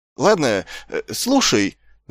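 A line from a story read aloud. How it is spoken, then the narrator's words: Stammering. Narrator (Russian): запинаясь, проговорил предводитель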